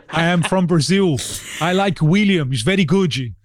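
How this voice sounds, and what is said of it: Put-on Brazilian accent. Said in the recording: “Was that another accent? ... It was.”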